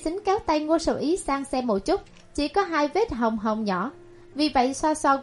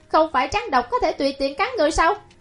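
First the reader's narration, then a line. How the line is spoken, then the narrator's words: Angry snapping. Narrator (Vietnamese): Ngô Sở Ý tức giận gắt một câu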